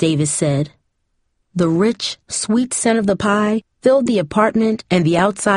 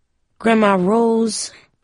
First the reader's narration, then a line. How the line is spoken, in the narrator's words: Cindy groaned